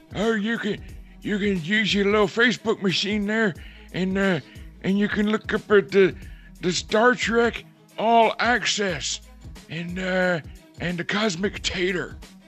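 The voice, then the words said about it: Old man voice. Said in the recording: “Pretty good old man voice.”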